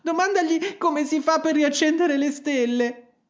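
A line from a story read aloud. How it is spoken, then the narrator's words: Whining. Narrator (Italian): anche Gerodet 2 aveva cominciato a piagnucolare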